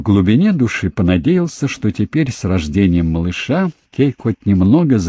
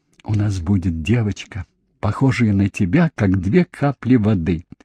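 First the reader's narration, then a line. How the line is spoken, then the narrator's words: Tender whisper. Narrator (Russian): прошептал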